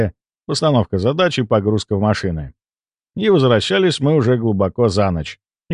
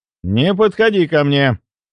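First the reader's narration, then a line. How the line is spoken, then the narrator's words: Loud grumble. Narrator (Russian): громко пробурчал я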